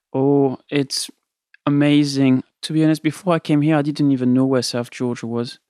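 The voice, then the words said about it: French accent. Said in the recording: “And you're French? ... Yes, I am. Just in case you haven't noticed my accent.”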